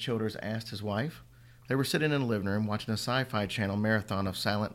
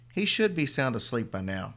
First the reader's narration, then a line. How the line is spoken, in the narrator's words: she said